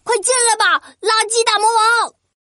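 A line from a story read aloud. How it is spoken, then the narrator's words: Shouting. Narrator (Chinese): 对着垃圾大魔王大喊着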